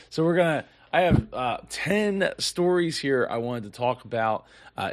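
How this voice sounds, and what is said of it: Strained voice, starting to go. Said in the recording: “I'm starting to lose my voice here. I meant to take a, a cough drop”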